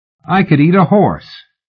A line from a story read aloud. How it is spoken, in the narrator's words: Helen America said cheerfully